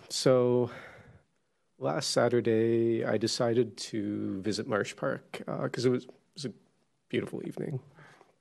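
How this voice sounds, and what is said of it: Hoarse, strained, nearly lost voice. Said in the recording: “I've lost my voice already.”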